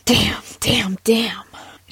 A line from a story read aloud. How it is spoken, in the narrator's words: she muttered